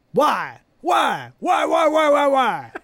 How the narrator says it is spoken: yells

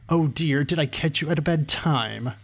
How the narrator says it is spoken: the magician asked in a snide, sarcastic tone

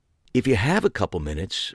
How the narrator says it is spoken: Megan added earnestly

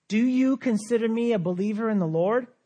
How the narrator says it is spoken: she asked

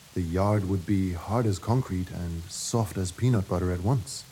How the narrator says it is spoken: the young man murmured

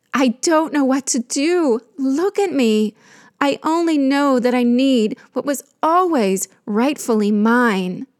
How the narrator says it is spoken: she pleaded

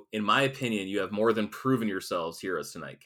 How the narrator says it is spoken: Cap says

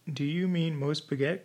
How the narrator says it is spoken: cried Jack, with a startled air

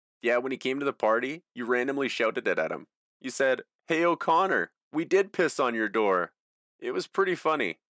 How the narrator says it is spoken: John exhaled, still laughing

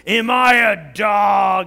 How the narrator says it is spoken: He roared at David

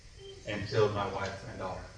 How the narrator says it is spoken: under his breath, he said

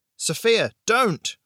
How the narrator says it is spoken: Raze shouted

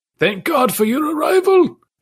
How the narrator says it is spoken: he said brokenly

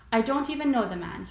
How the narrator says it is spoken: he said

